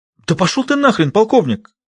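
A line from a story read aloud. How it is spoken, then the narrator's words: Annoyed exclamation. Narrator (Russian): воскликнула она, раздосадованная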